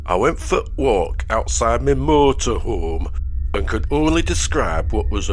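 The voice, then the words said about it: Put-on Yorkshire accent. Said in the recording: “I'll read a couple of short word-for-word accounts in the correct regional accent... my accents appear to be so authentic... here is the first account from Yorkshire”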